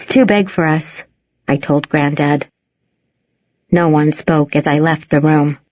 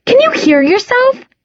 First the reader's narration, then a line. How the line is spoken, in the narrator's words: I snapped